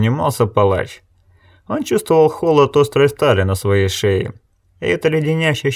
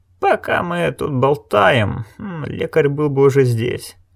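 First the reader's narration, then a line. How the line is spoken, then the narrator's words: Muttered. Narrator (Russian): пробормотал страж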